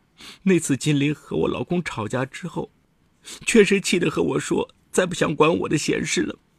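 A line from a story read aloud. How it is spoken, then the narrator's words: Crying. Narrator (Chinese): 张巧巧哭着对民警说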